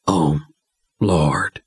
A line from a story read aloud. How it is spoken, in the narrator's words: Billy Ray whispered